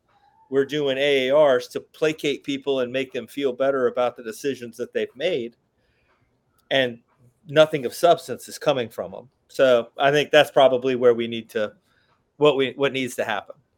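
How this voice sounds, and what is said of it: Alabama Southern accent. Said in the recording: “You're from Alabama. ... You have an accent.”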